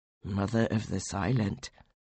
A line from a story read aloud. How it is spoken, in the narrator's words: they murmured